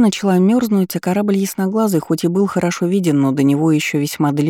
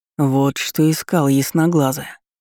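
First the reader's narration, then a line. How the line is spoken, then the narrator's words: Muttered. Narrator (Russian): пробормотал Джан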